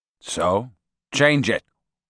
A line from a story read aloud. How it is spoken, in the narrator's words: he replied dryly